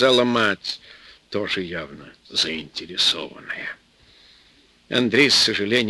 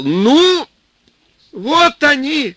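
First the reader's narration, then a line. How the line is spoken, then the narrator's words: Yelling boy. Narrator (Russian): заорал парнишка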